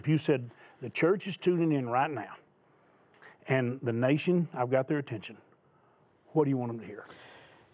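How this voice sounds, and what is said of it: Loud, raised preaching voice. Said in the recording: “We can't be hollering and screaming out there ... raised my voice ... Tone it down just a little bit.”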